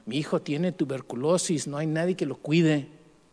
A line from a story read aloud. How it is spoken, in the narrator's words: Abelino said